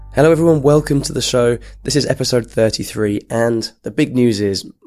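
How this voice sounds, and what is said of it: Hoarse, croaking, strained voice. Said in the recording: “my voice has been destroyed. I can hardly speak... my croaking”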